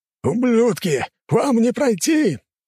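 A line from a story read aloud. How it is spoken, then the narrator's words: Yelling. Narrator (Russian): орал ему враг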